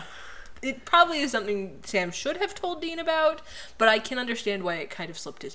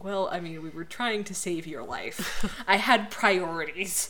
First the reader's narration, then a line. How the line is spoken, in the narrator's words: <laughs> Sam's like gravely, like